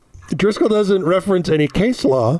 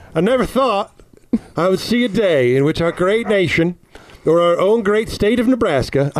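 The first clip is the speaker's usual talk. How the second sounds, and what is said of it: Put-on southern American accent. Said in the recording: “I gotta use a southern accent ... I know it's not a Nebraska accent ... I don't know how to do it ... that was fairly Nebraskan”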